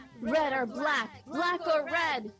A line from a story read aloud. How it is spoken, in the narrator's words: With a thunderous roar, she yelled